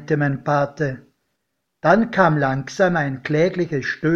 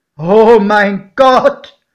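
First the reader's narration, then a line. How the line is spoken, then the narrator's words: Exclaimed. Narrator (German): rief mein Pate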